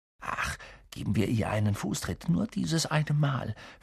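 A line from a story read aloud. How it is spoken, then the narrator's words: Whisper in ear. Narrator (German): flüsterte Ron Harry ins Ohr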